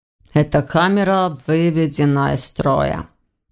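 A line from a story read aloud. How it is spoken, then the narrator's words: Gloomy. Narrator (Russian): мрачно заметил Войтых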